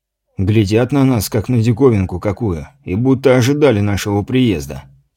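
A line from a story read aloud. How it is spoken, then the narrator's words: Quiet speech. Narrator (Russian): тихо произнес Гордей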